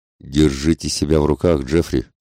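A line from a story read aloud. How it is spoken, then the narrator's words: Plain. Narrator (Russian): сказал он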